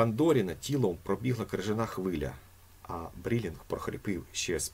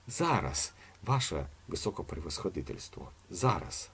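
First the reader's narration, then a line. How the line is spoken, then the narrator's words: Muttered. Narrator (Ukrainian): пробурмотів Сусанець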